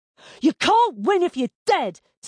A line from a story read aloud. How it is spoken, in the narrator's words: Tamina shouted